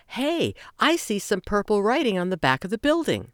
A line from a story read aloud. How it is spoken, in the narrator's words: Simon offered excitedly